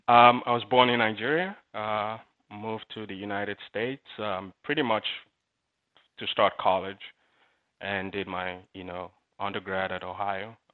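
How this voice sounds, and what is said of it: Mixed Nigerian accent. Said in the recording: “the accent is, I would say, probably primarily Nigerian, but infused with a lot of other things ... it's kind of a mix ... you're from like East London”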